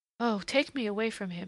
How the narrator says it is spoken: she breathed suddenly, unpremeditatively

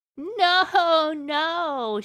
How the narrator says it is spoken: she laughed

